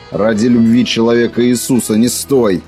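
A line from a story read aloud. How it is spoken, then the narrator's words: Barked command. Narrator (Russian): рявкнул стрелок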